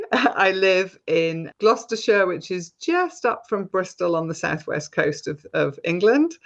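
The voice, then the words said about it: British English accent. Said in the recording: “she has a cool accent ... people can probably guess from my accent that I'm based in the UK”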